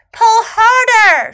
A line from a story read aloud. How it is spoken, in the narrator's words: shouted Snake